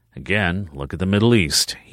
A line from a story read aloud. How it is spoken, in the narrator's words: he murmured, as if he were talking more to himself than her